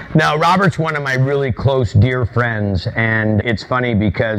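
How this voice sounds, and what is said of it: Usual voice. Nothing is said of it.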